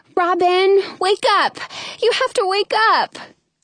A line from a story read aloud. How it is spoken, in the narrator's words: I whimper